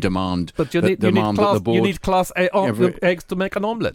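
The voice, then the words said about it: Good José Mourinho impression. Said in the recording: “Great Mourinho expression. ... very, very good impression.”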